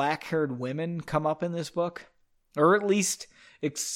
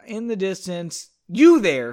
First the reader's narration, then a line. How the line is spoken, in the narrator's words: she yelled down the hall